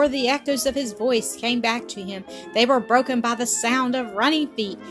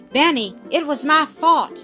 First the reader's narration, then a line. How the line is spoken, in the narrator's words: exclaimed Tom